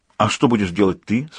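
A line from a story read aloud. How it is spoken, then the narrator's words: Plain. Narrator (Russian): спросила Сьюзан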